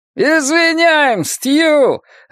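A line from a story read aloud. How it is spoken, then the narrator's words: Joyful shout. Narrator (Russian): радостно закричал Гарри Данбертон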